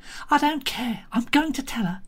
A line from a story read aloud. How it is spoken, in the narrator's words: to say breathlessly